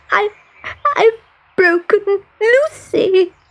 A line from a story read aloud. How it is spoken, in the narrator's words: she sobbed